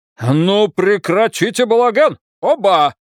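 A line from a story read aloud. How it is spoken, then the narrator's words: Barked. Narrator (Russian): рявкнул Браун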